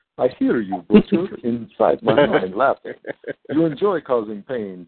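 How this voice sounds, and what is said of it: Dracula-like Colossus voice. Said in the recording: “let me do my Colossus voice. ... That's more like a Dracula voice, but whatever.”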